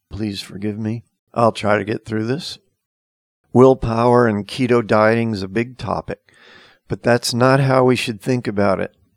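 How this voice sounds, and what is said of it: Strained voice, nearly lost. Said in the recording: “as you can hear, I'm about to lose my voice.”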